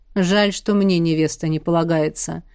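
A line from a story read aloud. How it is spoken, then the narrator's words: Serpent's snort. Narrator (Russian): хмыкнул змей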